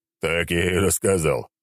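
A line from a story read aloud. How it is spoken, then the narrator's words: Scoffing grunt. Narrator (Russian): хмыкнул тот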